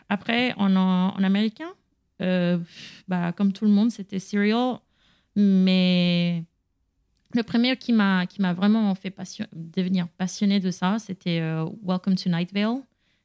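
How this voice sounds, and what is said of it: Latin accent in French. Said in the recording (French): “mon accent français, c'est latin et pas américain”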